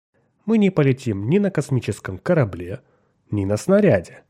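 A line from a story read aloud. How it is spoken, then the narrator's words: Calm. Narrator (Russian): спокойно сказал Милтон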